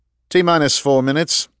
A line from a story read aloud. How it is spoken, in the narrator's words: the nav officer called out